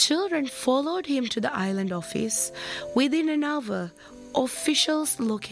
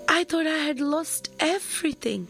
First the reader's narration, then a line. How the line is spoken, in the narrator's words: he exclaimed